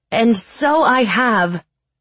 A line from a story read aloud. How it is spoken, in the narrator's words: said Ayama in her loud, clear voice that echoed like a horn of war